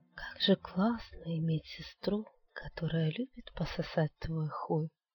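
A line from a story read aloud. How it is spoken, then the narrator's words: Soft, smiling, sensual voice. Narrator (Russian): Она мягко улыбнулась и эротично произнесла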